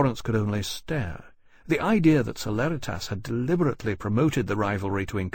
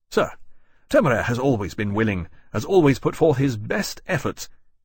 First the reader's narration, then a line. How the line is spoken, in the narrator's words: he began angrily